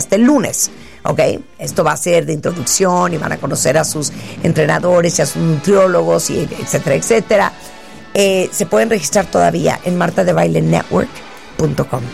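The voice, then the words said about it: Very hoarse, old-sounding voice. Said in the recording (Spanish): “¿quién es esa viejita que está en W Radio? ... Es que no sé por qué estoy ronca hoy. ... Sí, pero está bien ronca”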